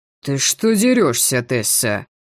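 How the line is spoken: Displeased grumble. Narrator (Russian): проворчал недовольно

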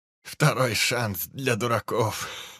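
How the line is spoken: Laughing. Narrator (Russian): Рассмеялся Киллмистер

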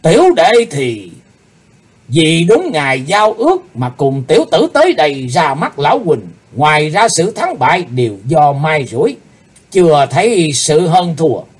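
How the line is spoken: Stern, serious. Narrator (Vietnamese): Nam Tà nghiêm nghị

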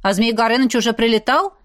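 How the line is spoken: Girl's skeptical snort. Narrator (Russian): Настюша хмыкнула

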